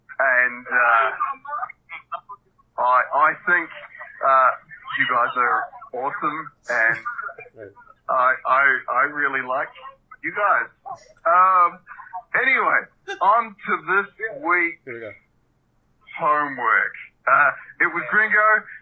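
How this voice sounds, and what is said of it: Put-on New Zealand accent. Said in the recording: “impersonating Reed with a New Zealand accent.”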